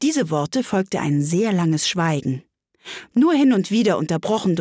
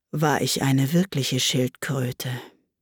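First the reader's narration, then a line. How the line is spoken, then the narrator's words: Deep sigh. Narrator (German): sagte die falsche Schildkröte endlich mit einem tiefen Seufzer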